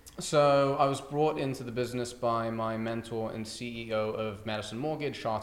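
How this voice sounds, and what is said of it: British accent. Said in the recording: “the British thing, it goes a long way ... I'm a dude with an accent”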